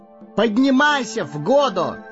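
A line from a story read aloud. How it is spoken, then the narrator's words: Ringing shout. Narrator (Russian): звонко выкрикнул Пипин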